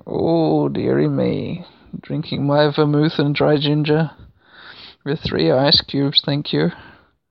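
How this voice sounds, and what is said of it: Tired, low-energy, old-man-like voice. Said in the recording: “my energy levels are like fucking zero now. You can probably tell. I sound like an old man.”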